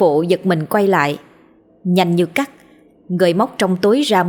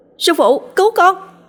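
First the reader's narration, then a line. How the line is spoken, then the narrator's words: Panicked scream. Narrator (Vietnamese): Tôi hoảng hốt hét lên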